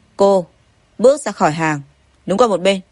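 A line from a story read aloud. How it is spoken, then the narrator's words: Cold mocking voice. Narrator (Vietnamese): Hạ Hoàng Huân cười lạnh lùng nói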